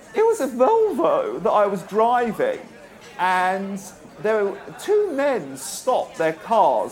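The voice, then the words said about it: High-pitched camp voice. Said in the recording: “high voice? ... A high voice? ... With a high voice. You answer it with a high voice. ... Well, like a camp kind of voice. ... Higher.”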